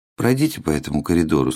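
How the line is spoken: Flat colorless voice. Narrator (Russian): сказал чиновник бесцветным голосом

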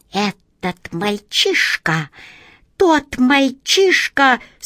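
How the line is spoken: Hissing whisper. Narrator (Russian): свистящим шепотом заговорила

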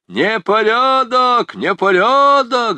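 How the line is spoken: Group yelling. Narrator (Russian): завопили шкалеры

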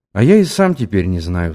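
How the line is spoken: Sighed. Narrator (Russian): вздохнул

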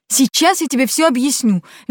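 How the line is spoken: Cheerful motorcycle roar. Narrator (Russian): весело взревел мотоцикл

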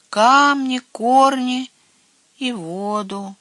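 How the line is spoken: Dejected, downcast voice. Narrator (Russian): поникшим голосом отвечал Херби

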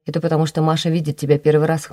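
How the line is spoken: Snorting. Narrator (Russian): хмыкнул Матвей

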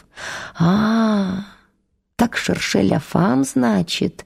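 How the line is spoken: Mocking drawl. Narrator (Russian): протянул он, насмешливо глядя на Антона

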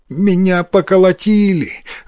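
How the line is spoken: Sobbing. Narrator (Russian): рыдая, ответил Йотаро

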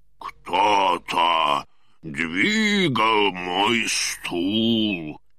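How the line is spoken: Deep low voice. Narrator (Russian): сказал папа-медведь густым низким голосом

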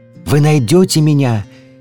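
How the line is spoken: Distant shout. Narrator (Russian): издалека кричал пестрый зонтик

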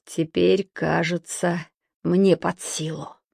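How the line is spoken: Muttering to himself, a camel. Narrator (Russian): пробормотал про себя верблюд

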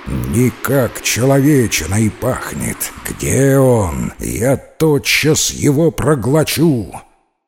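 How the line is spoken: Growling. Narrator (Russian): Вихрь зарычал

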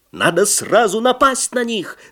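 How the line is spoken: Sailors shouting. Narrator (Russian): закричали матросы

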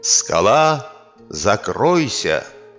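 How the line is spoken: Commanding. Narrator (Russian): приказал кабан

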